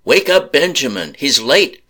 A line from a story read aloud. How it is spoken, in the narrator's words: the landowner yelled back